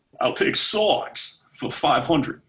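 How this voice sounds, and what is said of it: Bad Sean Connery impression. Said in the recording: “not going to do a scottish accent i suck ... connery ... That's a bad Connery too.”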